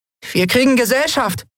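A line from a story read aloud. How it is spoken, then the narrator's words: Calling out. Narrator (German): rief sie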